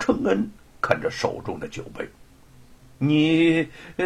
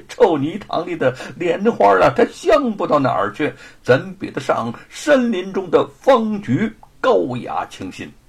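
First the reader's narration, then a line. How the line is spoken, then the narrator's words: Laughing. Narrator (Chinese): 沈坤笑着说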